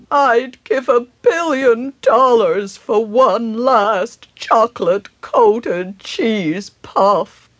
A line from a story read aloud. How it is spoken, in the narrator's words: moaned a rowdy